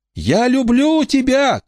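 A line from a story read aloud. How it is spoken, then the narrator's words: Shouted reply. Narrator (Russian): крикнула Рамона в ответ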